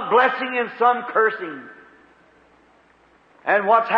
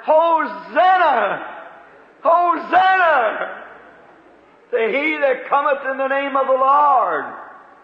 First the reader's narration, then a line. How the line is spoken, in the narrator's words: others are hollering